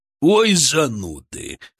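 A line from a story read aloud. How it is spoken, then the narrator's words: Chuckling. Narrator (Russian): хохотнул Титан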